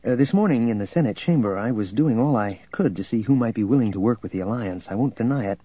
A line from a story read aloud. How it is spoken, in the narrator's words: he went on quickly